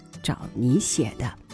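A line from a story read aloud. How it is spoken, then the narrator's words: Amused low mutter. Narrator (Chinese): 父亲……笑着低声嘟囔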